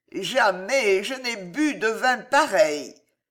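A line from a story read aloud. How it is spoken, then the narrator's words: Thick slurred voice. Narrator (French): fit Gillot d'une voix pâteuse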